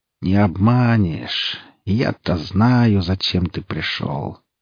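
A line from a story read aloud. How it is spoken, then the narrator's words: Mocking yet sad. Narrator (Russian): Ведьма насмешливо и в то же время грустно улыбнулась, как бы говоря ему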